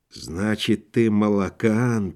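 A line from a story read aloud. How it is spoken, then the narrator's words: Whisper. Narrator (Russian): прошептал Акинфиев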